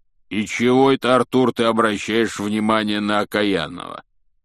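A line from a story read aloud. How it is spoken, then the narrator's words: Grumbling. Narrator (Russian): пробурчал Хагрид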